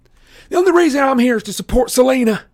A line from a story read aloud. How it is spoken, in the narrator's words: Clarice shouted